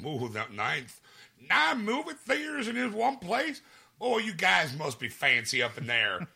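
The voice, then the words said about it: Put-on Southern Louisiana accent. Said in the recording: “Why'd you make a Southern accent ... It was Louisiana.”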